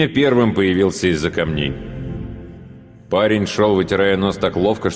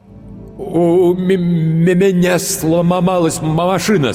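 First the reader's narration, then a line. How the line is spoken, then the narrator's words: Heavy stutter. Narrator (Russian): сказал он, сильно заикаясь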